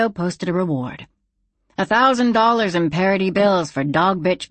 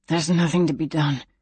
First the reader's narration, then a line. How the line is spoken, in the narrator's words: Bess answered, her voice a hoarse whisper